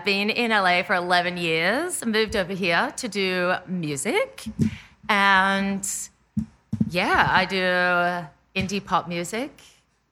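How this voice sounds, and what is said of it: Australian accent. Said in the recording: “you have an accent... an accent... I will try and do it even more for you now that I'm pointing my accent out... I'm Australian.”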